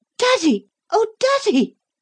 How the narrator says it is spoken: Lucy cried out in a loud, cracked-sounding voice

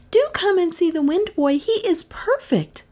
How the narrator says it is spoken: she cried

